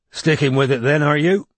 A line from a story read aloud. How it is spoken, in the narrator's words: he said roughly